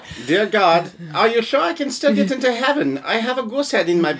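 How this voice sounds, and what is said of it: Put-on German accent. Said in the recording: “excellent accent... Hans impersonation... I've been working hard on my German.”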